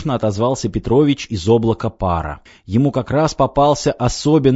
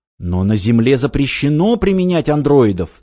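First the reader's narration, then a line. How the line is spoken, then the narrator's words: Exclamation. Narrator (Russian): воскликнул управляющий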